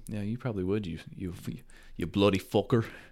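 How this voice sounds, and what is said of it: Put-on Irish accent. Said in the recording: “There probably wasn't an Irish accent, but I was just trying to imitate ... the one.”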